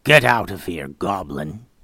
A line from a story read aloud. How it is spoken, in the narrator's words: Gray looked at him angrily and through gritted teeth said